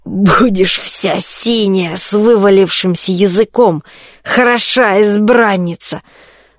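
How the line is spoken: Hoarse barking laugh. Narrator (Russian): Страшный гость снова хохотнул, хрипло, будто дряхлая собака залаяла

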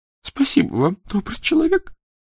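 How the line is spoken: Sobbing. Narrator (Russian): всхлипнула она

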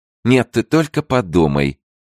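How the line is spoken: Exclaimed. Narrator (Russian): воскликнула королева, обращаясь прямо к Леонсии

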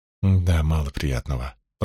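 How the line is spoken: Muttered. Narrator (Russian): пробормотала Илэйн

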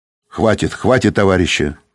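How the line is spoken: Stern. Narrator (Russian): строго сказал он

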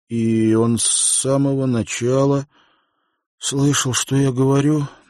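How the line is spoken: Strained fearful words. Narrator (Russian): Наконец выдавил из себя Уилл, опасаясь худшего

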